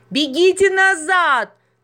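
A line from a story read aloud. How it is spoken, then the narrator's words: Shout. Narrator (Russian): крикнул Рюрик девочке и корове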